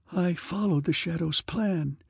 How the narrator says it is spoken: she whispered

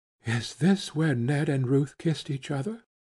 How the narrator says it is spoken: she whispered breathlessly

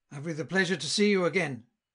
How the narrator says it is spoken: cried he

